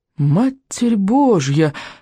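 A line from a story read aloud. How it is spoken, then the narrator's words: Breathless exclamation, pilot. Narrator (Russian): выдохнул один из летчиков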